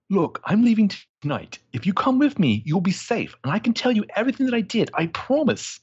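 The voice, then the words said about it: Character voice with slightly working-class accent. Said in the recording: “Accent you're doing here, it's, I don't know. Somebody else could kind of place the dialect ... a little bit more of like a working class in there”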